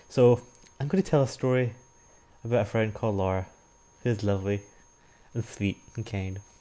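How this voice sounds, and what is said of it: Formal, carefully enunciated speech. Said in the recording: “I don't know why I'm talking like this ... I don't want to talk in my normal Scottish accent, so I'm trying my best to speak formally and enunciate properly”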